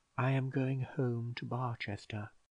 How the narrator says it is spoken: Bold very quietly

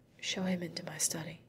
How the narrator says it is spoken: she whispered to the girl

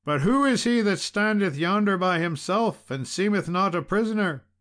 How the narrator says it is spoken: cried he

